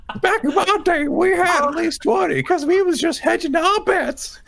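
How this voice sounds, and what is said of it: Old lady character voice. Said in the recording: “old lady voice”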